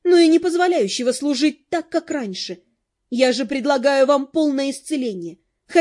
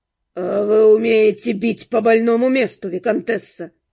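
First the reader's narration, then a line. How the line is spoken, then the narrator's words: Said through gritted teeth. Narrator (Russian): процедил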